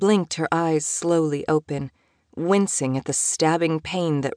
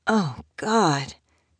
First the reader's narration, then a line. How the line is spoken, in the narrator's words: she groaned